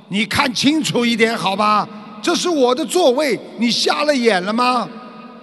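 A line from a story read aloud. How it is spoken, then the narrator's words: Angry loud yelling. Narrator (Chinese): 那个男士非常生气，当场大声的嚎叫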